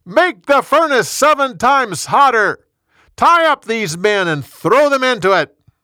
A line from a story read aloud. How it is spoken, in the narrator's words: He shouted to his guard